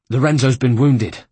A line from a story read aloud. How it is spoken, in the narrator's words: Ezio gasped